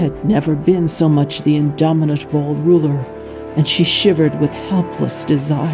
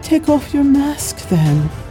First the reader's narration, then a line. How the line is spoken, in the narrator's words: whispered, her voice as fragile as her faltering virtue